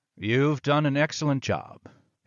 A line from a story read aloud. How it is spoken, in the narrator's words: he purred